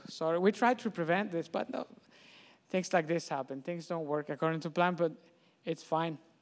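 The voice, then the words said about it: French accent. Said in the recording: “my French accent, I don't know how you'll be able to understand anything I say”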